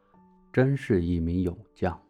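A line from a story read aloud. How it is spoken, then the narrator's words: Flat indifferent tone. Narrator (Chinese): 孔子没有任何表情，只是淡淡的说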